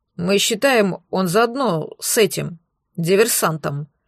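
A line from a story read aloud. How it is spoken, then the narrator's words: Mumbling. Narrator (Russian): промямлил техник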